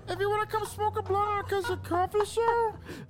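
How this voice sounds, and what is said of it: Elmo character voice. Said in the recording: “could do a good impression of different shit. Like, he could do Stitch, he could do, like, SpongeBob ... I'd be doing Elmo too.”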